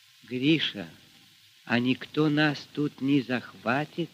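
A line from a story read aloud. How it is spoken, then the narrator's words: Quiet question. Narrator (Russian): тихо спросила Аксинья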